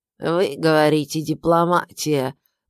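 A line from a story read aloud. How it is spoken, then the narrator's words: Creaky old voice. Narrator (Russian): произнес он своим скрипучим старческим голосом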